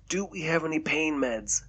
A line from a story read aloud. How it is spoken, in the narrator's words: Derek asked, his voice strained